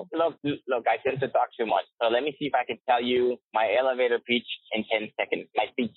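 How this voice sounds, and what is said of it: Speaks English with a noticeable accent. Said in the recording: “You can hear my accent. So it comes in and out.”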